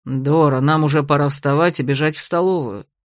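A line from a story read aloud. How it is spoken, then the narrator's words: Reluctant sigh. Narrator (Russian): вздохнул маг, с неохотой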